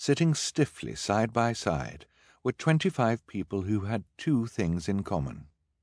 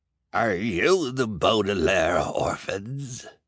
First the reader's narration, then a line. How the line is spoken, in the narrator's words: asked one of the old men, in a gravelly voice